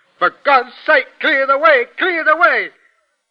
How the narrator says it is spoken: it shouts

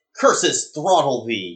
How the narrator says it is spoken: yelled Ahab

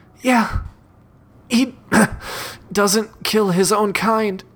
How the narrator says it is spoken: She gasps for breath and responds

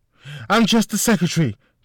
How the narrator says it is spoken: the woman responded in a shaky voice

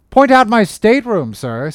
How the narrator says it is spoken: says Jonah

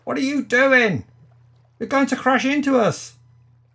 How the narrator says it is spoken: called out

